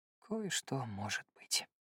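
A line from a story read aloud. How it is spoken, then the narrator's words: Very quiet sigh. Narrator (Russian): вздохнул он после паузы так тихо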